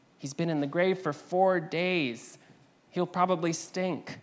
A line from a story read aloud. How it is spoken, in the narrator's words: cried Martha